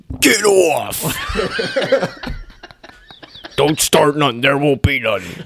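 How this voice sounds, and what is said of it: Imitates another person's voice. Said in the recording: “I can do a Bill impression.”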